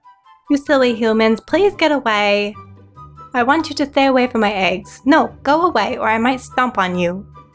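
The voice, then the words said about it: High-pitched polite dinosaur character voice. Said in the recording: “big dinosaur with a tiny voice ... Choose just the octave of a voice ... So I'll go hi ... A polite dinosaur.”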